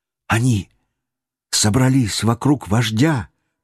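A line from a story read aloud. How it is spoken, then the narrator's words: Child's whisper. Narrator (Russian): прошептал мальчик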